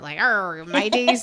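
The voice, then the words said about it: Put-on pirate accent. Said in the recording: “I always get them mixed up, and then I end up turning into a pirate accent.”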